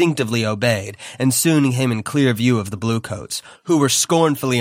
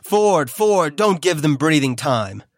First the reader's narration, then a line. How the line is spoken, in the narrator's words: Somebody yelled